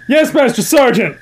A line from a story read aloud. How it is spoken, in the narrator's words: I yelled as loudly as I could